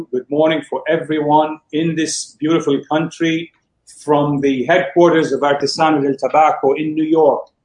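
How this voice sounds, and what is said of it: Slight foreign accent. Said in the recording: “I hear a little accent there.”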